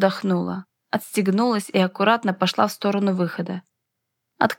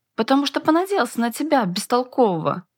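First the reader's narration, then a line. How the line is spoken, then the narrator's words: Heated exclamation. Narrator (Russian): горячо воскликнул Астас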